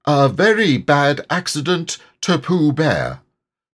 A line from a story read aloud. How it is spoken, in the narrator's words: to make sure, he said loudly